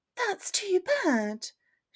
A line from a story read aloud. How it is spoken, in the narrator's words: she replies kindly, without expressing the slightest irritation